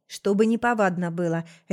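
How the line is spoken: Barked reply. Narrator (Russian): рявкнул в ответ король нежити

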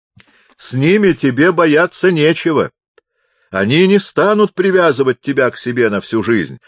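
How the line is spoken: Shouting. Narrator (Russian): кричал он

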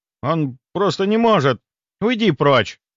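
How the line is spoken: Sharp shout. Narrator (Russian): прикрикнула она

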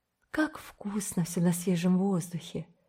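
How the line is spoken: Satisfied sigh. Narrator (Russian): Диана удовлетворенно вздохнула

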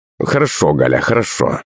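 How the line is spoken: Mumbling. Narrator (Russian): забормотал мужичок

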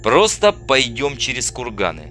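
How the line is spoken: Plain. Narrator (Russian): сказал Андрей

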